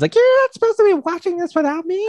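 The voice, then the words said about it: Bad imitation of another person's voice. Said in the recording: “my horrible impression”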